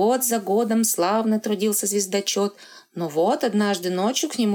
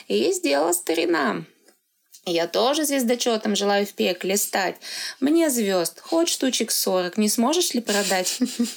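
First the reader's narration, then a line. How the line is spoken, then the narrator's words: Quiet giggling. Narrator (Russian): тихонечко хихикнул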